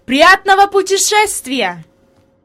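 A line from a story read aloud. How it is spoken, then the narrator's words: Shout. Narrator (Russian): господин Сесман крикнул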